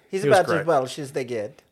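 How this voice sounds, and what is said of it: Put-on Welsh accent. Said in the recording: “That's my Welsh accent.”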